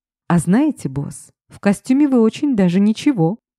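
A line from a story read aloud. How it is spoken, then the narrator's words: Cheerful whisper. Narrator (Russian): весело шепнула ему на ухо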